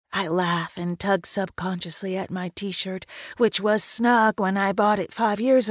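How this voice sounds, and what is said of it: Usual voice. Nothing is said of it.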